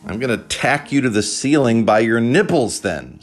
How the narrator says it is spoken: Sai shouted loudly

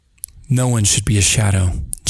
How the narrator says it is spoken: JJ said

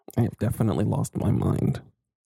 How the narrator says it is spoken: Larry muttered

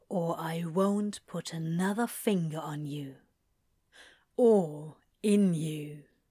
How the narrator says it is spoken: repeats quietly

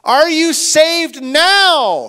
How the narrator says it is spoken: he called out

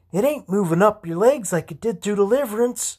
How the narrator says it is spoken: she exclaimed above the noise

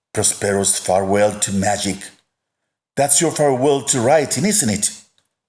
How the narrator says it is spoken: asked

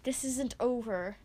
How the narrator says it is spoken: Pifa hisses, writhing under Boss's heavy boot

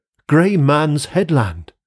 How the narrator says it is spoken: I started up from sleep, exclaiming

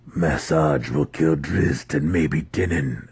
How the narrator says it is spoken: Alton grumbled

